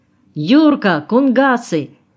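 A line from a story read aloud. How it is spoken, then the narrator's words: Shout. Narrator (Russian): крикнул Николай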